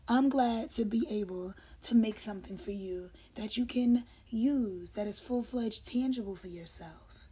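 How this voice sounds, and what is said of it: Hoarse, low, fading voice. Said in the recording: “losing my voice... Is this my bedroom voice”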